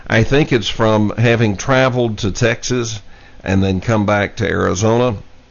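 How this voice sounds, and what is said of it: Hoarse voice. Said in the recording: “as you can probably hear, my voice, I'm a little bit hoarse. ... it has affected my voice a little bit.”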